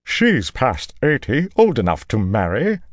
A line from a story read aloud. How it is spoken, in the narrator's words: Loyal's mother said sharply